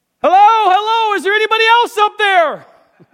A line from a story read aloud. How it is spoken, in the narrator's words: he began to yell